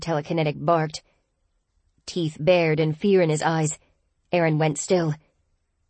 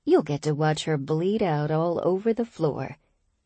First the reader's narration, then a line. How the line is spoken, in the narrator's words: the woman purred